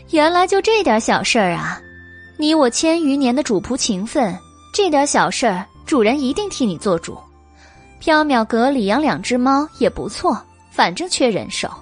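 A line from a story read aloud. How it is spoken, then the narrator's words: Laughing. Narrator (Chinese): 白姬笑道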